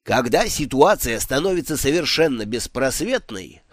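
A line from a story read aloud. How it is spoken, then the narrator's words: Smirking grunt. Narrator (Russian): хмыкнул Дидактилос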